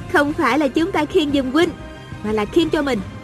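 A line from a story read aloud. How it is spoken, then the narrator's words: Smiling, pleasant. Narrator (Vietnamese): A Cửu mỉm cười nói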